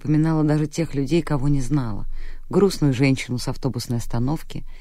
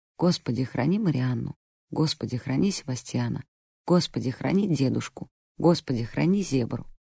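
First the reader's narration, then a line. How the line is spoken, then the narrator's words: Mumbled prayer. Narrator (Russian): она бормотала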